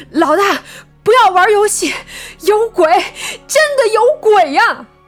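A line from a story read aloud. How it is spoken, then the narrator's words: Panicked, breathless. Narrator (Chinese): 王明急促的喘息声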